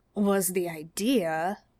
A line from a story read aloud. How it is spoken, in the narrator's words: Dean agreed sullenly